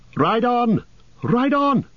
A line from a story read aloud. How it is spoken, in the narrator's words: cried Glorfindel